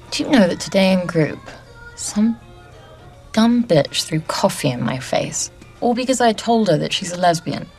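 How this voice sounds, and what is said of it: Girlish accent between British and American. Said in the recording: “you have the accent of a little girl who grew up somewhere between Heathrow and JFK”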